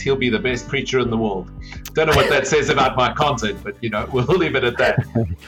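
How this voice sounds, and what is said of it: South African accent. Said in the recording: “hails originally from South Africa ... my accent ... your accent”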